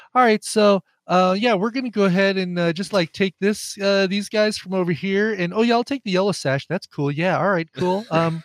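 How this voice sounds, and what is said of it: DiCaprio impression, casual American voice. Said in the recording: “DiCaprio's like”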